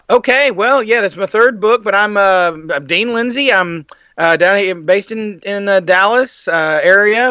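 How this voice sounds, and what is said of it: Slight Southern Texas accent. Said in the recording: “that little accent that you've got, too. That's a southern? ... Texas, born and raised”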